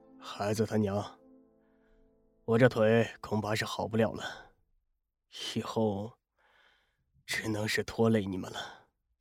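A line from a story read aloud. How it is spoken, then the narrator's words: Long sigh. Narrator (Chinese): 顾南长长的叹息了一声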